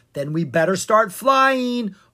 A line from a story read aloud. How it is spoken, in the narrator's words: Owen shouted